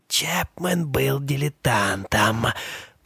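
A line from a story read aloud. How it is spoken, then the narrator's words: Hiss. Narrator (Russian): прошипела она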